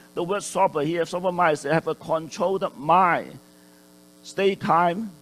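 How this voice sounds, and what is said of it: Excited, raised loud voice. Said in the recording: “I'm getting excited here, raising my voice.”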